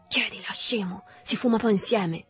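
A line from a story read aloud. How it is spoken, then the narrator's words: Whispering. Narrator (Italian): Berto sussurrandogli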